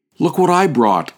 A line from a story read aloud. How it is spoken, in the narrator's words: exclaimed Little Four, a neighborhood boy